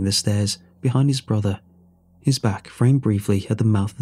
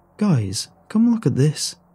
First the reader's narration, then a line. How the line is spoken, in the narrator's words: Aiden's voice cut through the warm wind, his voice high and excited